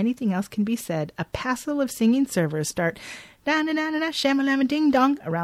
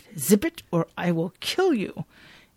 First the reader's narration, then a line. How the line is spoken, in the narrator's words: Aaron tells Bobby through gritted teeth